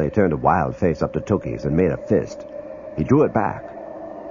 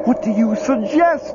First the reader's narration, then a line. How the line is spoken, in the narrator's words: Lumley yells, his voice high and hysterical